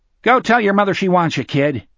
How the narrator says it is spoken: the first cop said, curtly

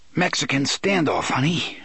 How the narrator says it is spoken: Eddie panted

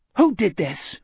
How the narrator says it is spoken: Richard asked angrily

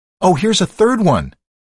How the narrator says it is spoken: a woman shouted

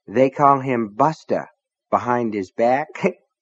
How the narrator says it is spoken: Nettie said and giggled

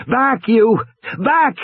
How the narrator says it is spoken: Regis shouted

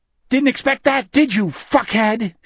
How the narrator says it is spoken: she screamed at the bird

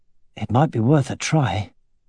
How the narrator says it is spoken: he muttered

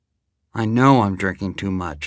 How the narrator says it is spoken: I said

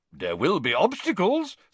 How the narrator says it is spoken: said Bagman happily

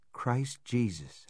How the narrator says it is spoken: whispered

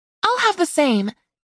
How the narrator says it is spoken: Sophia said brightly, a daring look in her eye

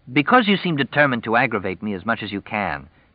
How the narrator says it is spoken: Jess said hotly

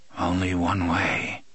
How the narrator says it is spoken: Jack's mouth muttered

